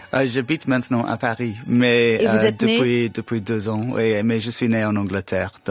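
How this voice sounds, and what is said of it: French with a British accent. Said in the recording (French): “votre français excellent et votre accent so British ... je suis avec un accent un peu British”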